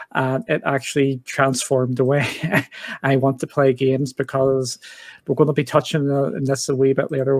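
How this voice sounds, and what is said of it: Fast Northern Irish accent. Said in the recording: “I'm over here in the UK and in Northern Ireland. ... a lot of people struggle with our accent over here because we speak too fast”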